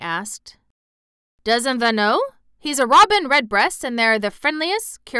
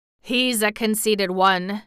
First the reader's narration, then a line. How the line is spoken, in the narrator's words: he chuckled